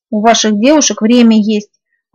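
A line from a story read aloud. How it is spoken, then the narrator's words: Grumbling. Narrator (Russian): пробурчала я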